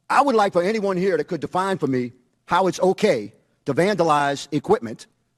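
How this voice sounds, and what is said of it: Moderate Louisiana accent. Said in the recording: “He's got the old Louisiana accent ... Not quite as heavy as what I've heard before, but yeah, he had a good Louisiana accent.”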